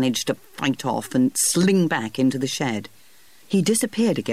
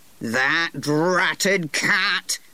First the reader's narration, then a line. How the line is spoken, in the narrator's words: said plain old Humphrey through gritted teeth